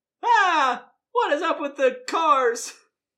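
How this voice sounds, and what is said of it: Jerry Seinfeld impression. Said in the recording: “my voice sounds like Jerry Seinfeld in the B-movie ... This is my new impression”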